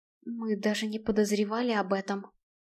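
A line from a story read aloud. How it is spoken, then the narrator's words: Whispered. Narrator (Russian): прошептал Блейн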